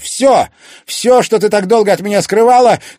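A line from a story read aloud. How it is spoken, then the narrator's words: Shouted. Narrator (Russian): крикнул Тимофей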